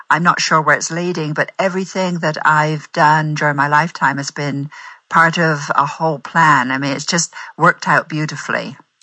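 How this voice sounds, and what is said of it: English West Country accent. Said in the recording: “you're from England ... You have a beautiful accent ... The West Country, Bristol's my hometown”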